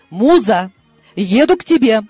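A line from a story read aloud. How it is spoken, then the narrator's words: Exclaiming. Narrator (Russian): воскликнула она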